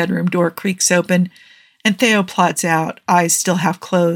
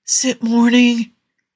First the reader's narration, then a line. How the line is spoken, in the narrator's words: he slurs, still half asleep